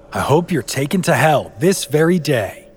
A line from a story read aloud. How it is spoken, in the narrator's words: his wife, fed up with his wicked ways, yelled right back at him